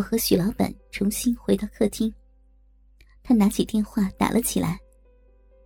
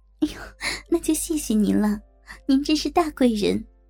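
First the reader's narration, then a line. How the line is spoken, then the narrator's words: Hurried smiling. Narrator (Chinese): 我急忙笑着说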